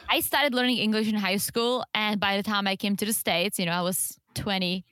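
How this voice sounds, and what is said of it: Non-native English accent. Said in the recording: “I'm stuck with this accent, because I started way too late. And I don't think I will ever get rid of it.”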